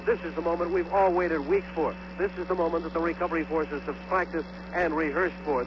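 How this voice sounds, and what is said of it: Excited, animated speech. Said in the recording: “I sound a little excited,... it's because I am excited”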